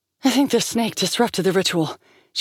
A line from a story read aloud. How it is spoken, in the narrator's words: said, gasping